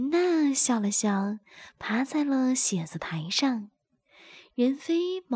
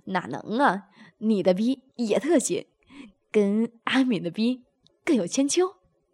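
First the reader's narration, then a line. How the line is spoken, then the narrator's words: Laughing. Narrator (Chinese): 任飞笑道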